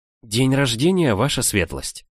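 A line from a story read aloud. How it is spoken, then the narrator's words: Very quiet. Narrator (Russian): совсем тихо произнесла Франкосийка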